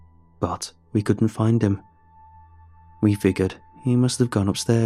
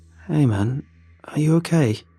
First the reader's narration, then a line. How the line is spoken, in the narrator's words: asked wearily